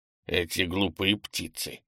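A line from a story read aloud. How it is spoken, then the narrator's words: Grumbling. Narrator (Russian): проворчал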